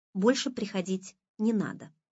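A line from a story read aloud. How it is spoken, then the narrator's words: Plain. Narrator (Russian): сказала она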